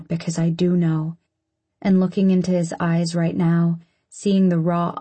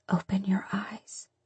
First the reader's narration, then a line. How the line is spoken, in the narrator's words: whisper